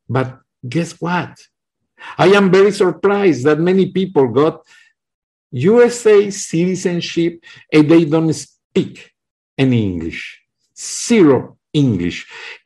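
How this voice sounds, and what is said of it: Heavy non-native English accent. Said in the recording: “I have a heavy accent, sorry, English is my third, third language”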